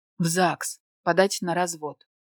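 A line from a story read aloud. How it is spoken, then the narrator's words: Sarcastic. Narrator (Russian): съязвила я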